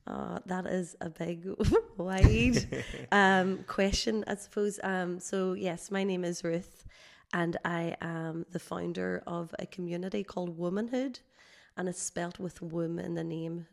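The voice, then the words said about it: Slightly hoarse voice. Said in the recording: “I have a bit of a cold and I might sound a little bit hoarse”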